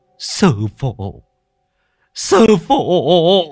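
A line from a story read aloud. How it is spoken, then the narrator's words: Tearful whimpering. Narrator (Vietnamese): mếu máo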